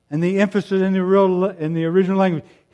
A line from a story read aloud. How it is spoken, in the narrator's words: he shouts